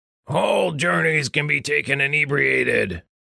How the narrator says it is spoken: Richter growled

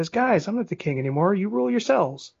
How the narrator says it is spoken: Nervously Johnny says

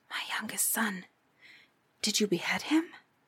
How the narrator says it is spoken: asked in a whisper

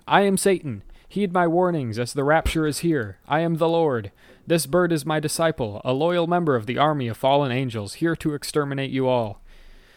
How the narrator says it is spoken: a naked elderly man swinging a dead chicken at the police, shouting

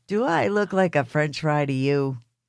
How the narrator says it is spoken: Pete chuckled and asked

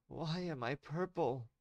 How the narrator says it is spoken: she begged him

